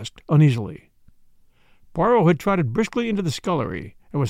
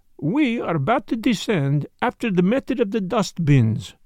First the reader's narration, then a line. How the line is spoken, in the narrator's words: he explained cheerfully